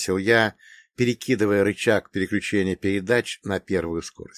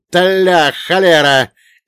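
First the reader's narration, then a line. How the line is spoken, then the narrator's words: Old man's frantic scream. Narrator (Russian): истошно завопил дед Маркей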